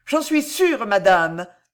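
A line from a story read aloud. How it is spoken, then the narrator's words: Furious outburst. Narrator (French): s'écria l'espionne hors d'elle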